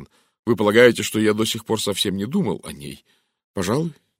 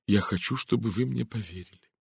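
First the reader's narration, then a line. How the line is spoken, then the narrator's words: Sincere, sighing. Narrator (Russian): вздохнул и произнес искренним тоном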